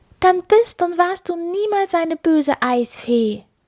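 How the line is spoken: Exclamation. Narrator (German): rief Ylvi aus

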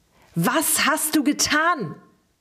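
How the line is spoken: Shouted again. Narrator (German): schrie er erneut und schlug mit der Faust wütend auf den Boden

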